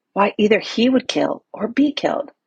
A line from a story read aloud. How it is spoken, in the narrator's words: whispered Glauzel